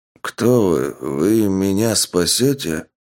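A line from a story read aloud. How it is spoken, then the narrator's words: Old man mumbling. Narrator (Russian): пробормотал старик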